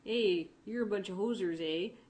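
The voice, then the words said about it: Stereotypical Canadian accent. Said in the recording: “Canadian accent... stereotypical Eastern Prairie Winnipeg”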